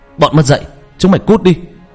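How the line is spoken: Protective angry shout. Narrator (Vietnamese): hét lên

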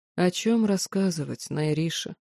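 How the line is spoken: Wry, tired question. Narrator (Russian): Усмехнулся и устало спросил

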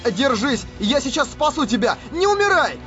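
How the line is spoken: Shouting again. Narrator (Russian): Вновь крикнул

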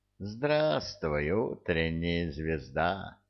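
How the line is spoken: Silky voice. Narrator (Russian): сказал шелковым голосом

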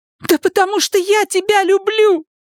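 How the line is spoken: Shout. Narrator (Russian): закричала Элис

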